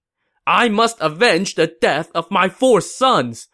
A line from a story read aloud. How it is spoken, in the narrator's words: he shouted